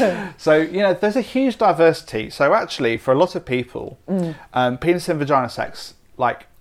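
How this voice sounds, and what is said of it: Usual voice. Nothing is said of it.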